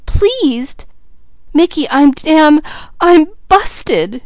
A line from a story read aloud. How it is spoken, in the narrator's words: sobbed Mickey